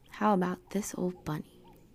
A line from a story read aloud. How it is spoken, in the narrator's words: she asked